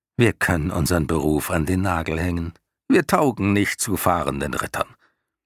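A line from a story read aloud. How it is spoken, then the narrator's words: Dry. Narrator (German): sagte Hydorn trocken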